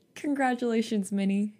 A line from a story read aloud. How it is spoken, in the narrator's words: he said, his voice wobbling